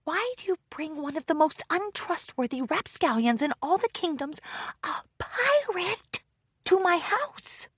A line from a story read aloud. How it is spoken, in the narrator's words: Daring Do whispered once Solano was out of earshot